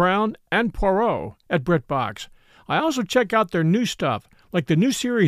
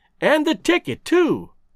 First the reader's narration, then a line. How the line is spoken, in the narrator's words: I cried